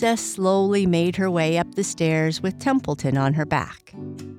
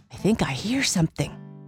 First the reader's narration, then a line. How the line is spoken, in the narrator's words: Templeton whispered, a little bit frightened